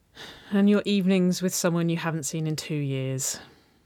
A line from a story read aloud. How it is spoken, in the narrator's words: Nicole sighed